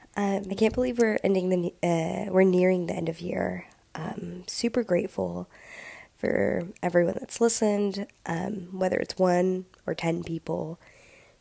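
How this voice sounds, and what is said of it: Sick, congested voice. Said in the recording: “excuse my voice. I'm a little sick ... my sick voice”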